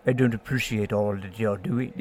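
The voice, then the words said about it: Imitates another person's weird accent. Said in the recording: “he has that weird accent.”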